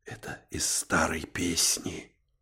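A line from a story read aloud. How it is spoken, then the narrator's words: Whispered explanation, uncle. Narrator (Russian): пояснил шепотом дядя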